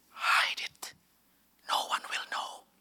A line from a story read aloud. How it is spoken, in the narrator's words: the one that whispers